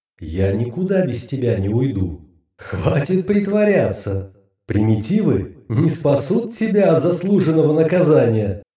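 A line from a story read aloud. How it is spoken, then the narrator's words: Creature's laughing reply. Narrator (Russian): Рассмеявшись, ответила тварь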